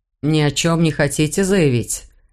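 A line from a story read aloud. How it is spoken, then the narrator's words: Customs officer's tired question. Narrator (Russian): устало спросил таможник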